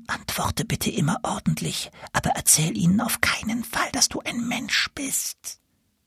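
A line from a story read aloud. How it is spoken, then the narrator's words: Whispered. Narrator (German): Der Gänserich hatte gerade noch Zeit, Nils zuzuflüstern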